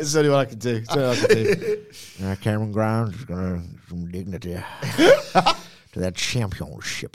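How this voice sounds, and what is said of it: Attempted Southern American accent. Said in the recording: “I can't do accents, but I'm still going to attempt them... I can do Southern American yeah. accents.”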